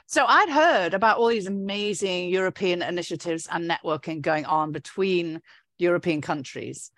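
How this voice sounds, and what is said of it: British accent. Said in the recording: “because of my British accent.”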